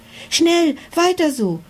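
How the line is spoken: Excited dragon calling out. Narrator (German): rief der Drache aufgeregt

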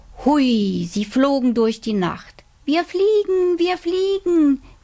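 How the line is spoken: Calling out. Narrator (German): rief Robert

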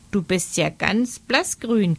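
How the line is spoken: Croak. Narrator (German): krächzte

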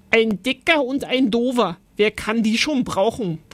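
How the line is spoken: Bellowing. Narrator (German): brüllte Oskar

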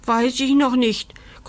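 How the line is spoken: Growled from above. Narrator (German): knurrt Taps von oben

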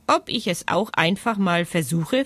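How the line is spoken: Plain. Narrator (German): fragt Ricardo

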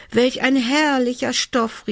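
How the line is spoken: Delighted exclamation. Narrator (German): rief sie

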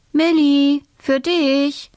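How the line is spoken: Mother calling. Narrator (German): ruft Mama

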